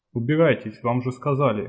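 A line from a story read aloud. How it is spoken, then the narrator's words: Gruff grumble. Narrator (Russian): буркнул мутант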